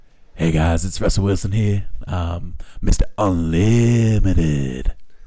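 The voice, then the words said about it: Imitates another person's voice. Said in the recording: “that impression ... That was an impression.”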